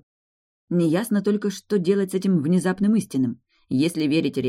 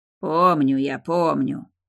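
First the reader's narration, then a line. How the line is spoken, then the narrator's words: Grumbling. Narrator (Russian): проворчал он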